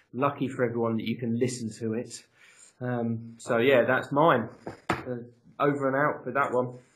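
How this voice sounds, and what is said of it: Croaky, hoarse voice. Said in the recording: “My voice is back again. It's a bit croaky.”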